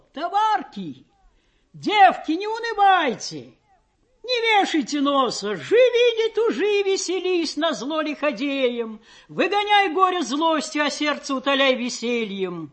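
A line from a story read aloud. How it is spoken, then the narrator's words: Loud shouting. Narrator (Russian): такие, как Просковея, кричали на весь плот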